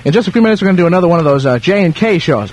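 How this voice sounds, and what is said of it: Talking very fast. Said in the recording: “I'm talking too fast”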